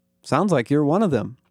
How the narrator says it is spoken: said

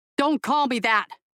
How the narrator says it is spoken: Imogen barked at him, her fury rising

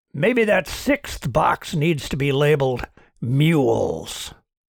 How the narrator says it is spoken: Charon growled

